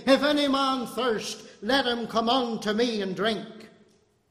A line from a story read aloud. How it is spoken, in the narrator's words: he cried, saying